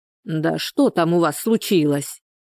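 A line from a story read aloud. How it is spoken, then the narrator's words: Displeased voice. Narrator (Russian): недовольным голосом встретила Анфиса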